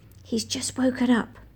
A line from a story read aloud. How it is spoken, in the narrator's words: I whispered